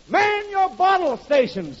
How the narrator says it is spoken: the boss turns to the bartenders and yells

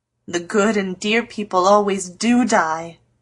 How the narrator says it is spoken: groaned Joe

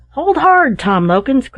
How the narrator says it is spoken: cried one

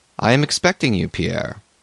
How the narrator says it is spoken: he said the same voice, but gently and affectionately

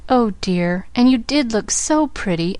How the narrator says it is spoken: almost sobbed Pollyanna

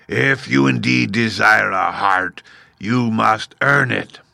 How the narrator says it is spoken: Oz gave a low growl at this, but said gruffly

